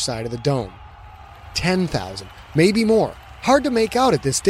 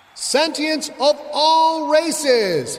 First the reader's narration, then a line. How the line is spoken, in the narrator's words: called the announcer, his voice booming off the roof and echoing throughout the underwater stadium